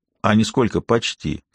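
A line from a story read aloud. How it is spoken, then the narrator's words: Calm explanation. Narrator (Russian): все так же спокойно пояснил командир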